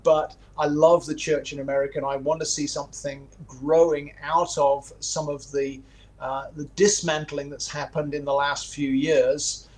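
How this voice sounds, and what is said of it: Non-American foreign accent. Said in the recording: “you can tell from my accent, I'm an outsider to this”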